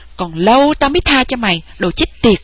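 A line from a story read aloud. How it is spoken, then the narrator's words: Angry loud yelling. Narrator (Vietnamese): giọng nàng giận dữ, nàng càng hét to lên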